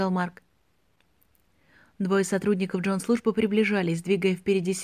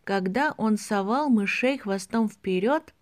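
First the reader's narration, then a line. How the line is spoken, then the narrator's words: Slow. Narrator (Russian): медленно произнес Рики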